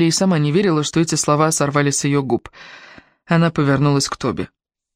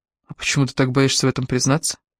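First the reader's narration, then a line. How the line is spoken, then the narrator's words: Quiet. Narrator (Russian): тихо произнес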